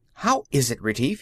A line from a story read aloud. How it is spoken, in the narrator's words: he said sharply